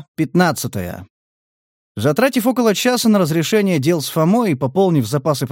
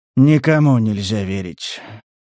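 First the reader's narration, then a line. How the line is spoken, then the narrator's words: Mournful sighing hunter. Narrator (Russian): скорбно вздохнул охотник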